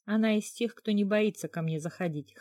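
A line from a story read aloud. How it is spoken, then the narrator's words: Wry snort. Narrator (Russian): хмыкнула Хейда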